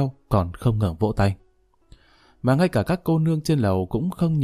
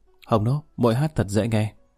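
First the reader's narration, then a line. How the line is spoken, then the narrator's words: Smiling, warm. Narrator (Vietnamese): mỉm cười hướng Quý Hồng Nô nói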